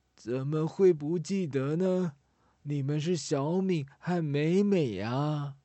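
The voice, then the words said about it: Aged, old woman's voice. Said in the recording (Chinese): “苍老的声音说”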